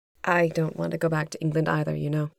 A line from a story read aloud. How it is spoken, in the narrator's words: Mary said quietly